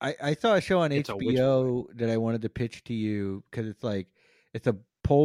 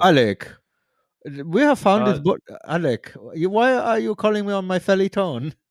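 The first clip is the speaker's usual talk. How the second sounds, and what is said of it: Poor put-on Polish accent, deep voice. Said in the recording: “I have a terrible Polish accent ... an impression of your mom with a deep voice”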